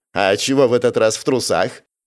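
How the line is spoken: Giggling. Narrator (Russian): хихикнула обесцвеченная медсестра

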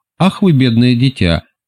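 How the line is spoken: Barely speaking through laughter. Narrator (Russian): еле выговорила сквозь смех

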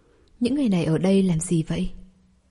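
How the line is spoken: Quiet, a little frightened. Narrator (Vietnamese): có hơi sợ hãi, nhỏ giọng nói

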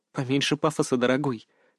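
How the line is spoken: Loud whisper. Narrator (Russian): шепнула Илона, но так, чтобы все услышали

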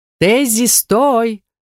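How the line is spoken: Louder shout. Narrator (Russian): крикнули еще громче

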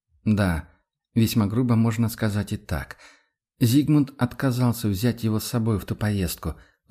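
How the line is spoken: Heavy sigh. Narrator (Russian): вздохнул Рудольф тяжело

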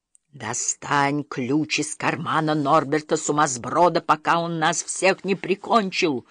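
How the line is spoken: Loud hissing whisper. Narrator (Russian): зашипел Икинг своим самым громким шепотом

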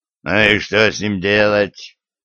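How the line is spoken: Growl. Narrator (Russian): рыкнул Лешак

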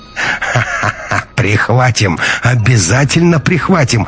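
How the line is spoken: Laughing, clownish burr. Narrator (Russian): рассмеялся товарищ Альфа и добавил с шутовской картавинкой

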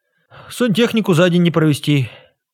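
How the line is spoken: Sighing. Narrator (Russian): Клава вздохнула

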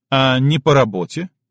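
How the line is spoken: Snorting chuckle. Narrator (Russian): Чалый хмыкнул

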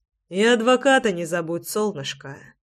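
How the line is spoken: Tender cooing. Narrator (Russian): Ласково проворковал я

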